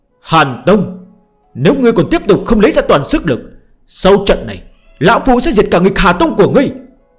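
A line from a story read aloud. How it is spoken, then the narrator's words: Panting roar. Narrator (Vietnamese): Trần Hạ Thiên hít thở ồ ồ, chợt gào thét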